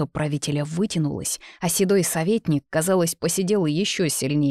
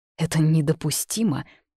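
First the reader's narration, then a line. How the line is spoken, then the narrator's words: Forced out, trembling lips. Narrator (Russian): выдавил с дрожащими губами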